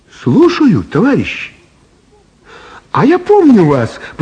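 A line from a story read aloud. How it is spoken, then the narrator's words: Cheerful. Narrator (Russian): весело сказала Элла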